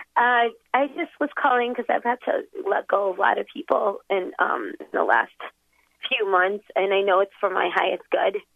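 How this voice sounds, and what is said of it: Congested voice with a cold. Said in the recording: “I have a cold. ... I had a cold, so I had to get a tissue.”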